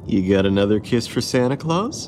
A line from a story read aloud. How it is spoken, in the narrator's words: Katie laughed good-heartedly